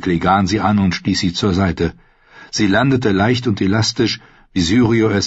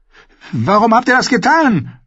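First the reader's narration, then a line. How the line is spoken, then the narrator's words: Shouted. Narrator (German): schrie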